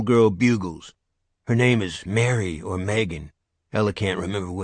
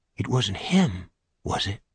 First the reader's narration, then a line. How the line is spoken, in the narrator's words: Regina asks, whispering